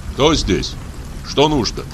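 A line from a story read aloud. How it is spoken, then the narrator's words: Plain. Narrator (Russian): спросил я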